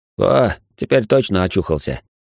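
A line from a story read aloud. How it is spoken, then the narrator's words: Satisfied grunt. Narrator (Russian): Ближайшая фигура удовлетворенно хмыкнула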